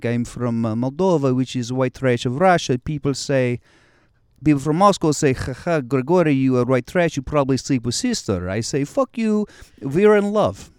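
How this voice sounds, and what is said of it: Put-on Russian accent. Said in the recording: “I did a Russian accent on stage ... the Russian accent ... As a Russian”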